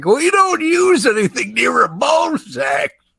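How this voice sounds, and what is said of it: Impression of two co-hosts. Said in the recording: “That was a really good impersonation of both of us. ... Yeah, that is how we sound.”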